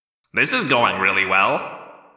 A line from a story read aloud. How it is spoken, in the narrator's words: Marco said dryly